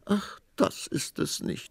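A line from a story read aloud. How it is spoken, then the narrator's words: Queen sobbing. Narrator (German): schluchzte die Königin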